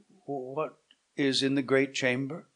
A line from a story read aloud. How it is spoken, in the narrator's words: His voice faltered, and he asked with disorder